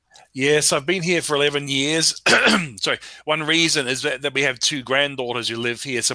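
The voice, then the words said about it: Foreign English accent. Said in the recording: “It's nice to hear your accent there”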